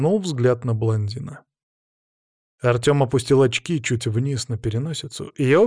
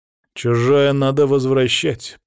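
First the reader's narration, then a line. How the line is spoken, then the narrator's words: Through gritted teeth. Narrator (Russian): процедил он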